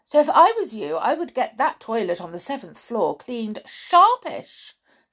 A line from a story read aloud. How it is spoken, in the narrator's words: snapped Amber